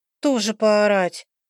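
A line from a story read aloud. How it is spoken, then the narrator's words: Gloomy reply. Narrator (Russian): мрачно отозвалась Лекси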